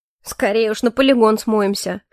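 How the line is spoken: Snorted. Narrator (Russian): хмыкнул Дейон

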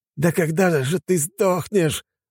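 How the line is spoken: Furious yelling. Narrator (Russian): заорал он

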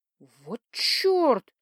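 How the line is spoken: Heartfelt exhale. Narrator (Russian): с чувством выдохнула я

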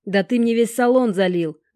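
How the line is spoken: Howling. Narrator (Russian): взвыл этот черт

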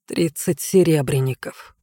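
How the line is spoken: Muttered. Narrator (Russian): пробормотал он

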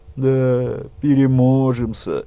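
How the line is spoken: Doubtful drawl. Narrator (Russian): недоверчиво протянула она

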